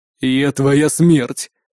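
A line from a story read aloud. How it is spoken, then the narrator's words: Ghostly growl. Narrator (Russian): прорычало привидение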